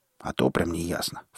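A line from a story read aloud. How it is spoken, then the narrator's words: Inner snort. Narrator (Russian): фыркнул я про себя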